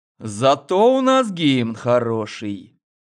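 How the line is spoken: Mysterious drawl. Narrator (Russian): загадочно протянул главный

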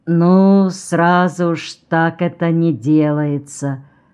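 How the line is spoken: Sleepy grandmother. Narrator (Russian): сонно проговорила бабушка

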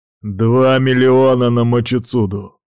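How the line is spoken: Rude tone. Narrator (Russian): сказал грубым тоном

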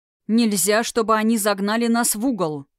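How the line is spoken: Growled. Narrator (Russian): прорычал Тхерайм

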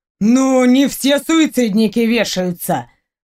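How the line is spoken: Smirking snort. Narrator (Russian): хмыкнул Костя

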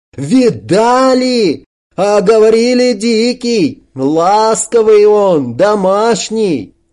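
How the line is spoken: Triumphant shout. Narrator (Russian): Кирпич торжествующе выкрикнул вслед кораблю

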